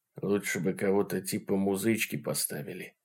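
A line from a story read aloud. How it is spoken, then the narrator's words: Whispered from mouth corner. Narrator (Russian): шепнул он краем рта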